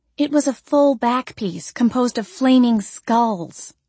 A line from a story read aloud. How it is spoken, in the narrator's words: Andrea exclaimed